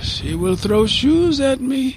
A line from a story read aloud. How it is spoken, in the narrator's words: Farid sighed